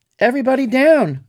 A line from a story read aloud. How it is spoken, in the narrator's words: I cried